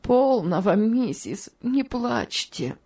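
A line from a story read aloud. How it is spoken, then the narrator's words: Said while sobbing. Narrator (Russian): сказала тетушка Хлоя, в свою очередь раздражаясь рыданиями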